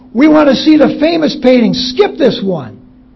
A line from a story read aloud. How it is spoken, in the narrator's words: a voice in the back of the hall shouted